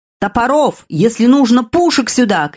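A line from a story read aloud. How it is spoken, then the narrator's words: Shouting. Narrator (Russian): кричал герцог де Ла-Рошфуко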